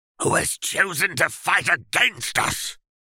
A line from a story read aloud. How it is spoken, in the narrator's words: the Dark Lord snapped